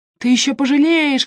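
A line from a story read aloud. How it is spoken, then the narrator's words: Shouting. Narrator (Russian): кричал он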